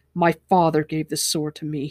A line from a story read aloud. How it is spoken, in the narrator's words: he said angrily